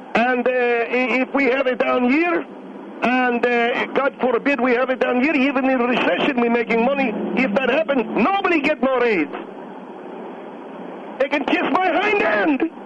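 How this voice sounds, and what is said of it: Angry yelling. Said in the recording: “what are you yelling for? ... I'm yelling”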